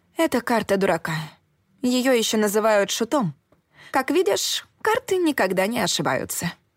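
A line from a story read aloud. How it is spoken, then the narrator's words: Sarcastic remark. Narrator (Russian): язвительно подметила я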